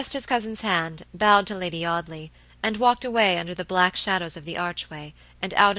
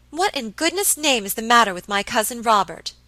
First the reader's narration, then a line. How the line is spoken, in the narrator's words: exclaimed Miss Audley impatiently